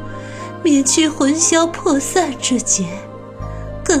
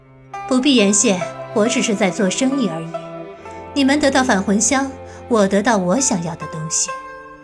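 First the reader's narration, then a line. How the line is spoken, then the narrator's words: Cool, flat. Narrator (Chinese): 白姬淡淡道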